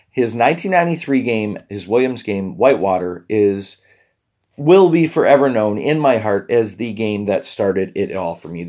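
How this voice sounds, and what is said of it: Strained, failing voice. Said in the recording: “I'm already losing my voice a little just because my throat, I could barely talk all day yesterday ... My voice will get better”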